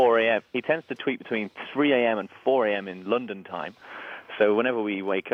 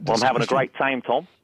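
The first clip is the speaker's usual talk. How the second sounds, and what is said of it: Put-on Australian accent. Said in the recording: “I can do a great Australian accent.”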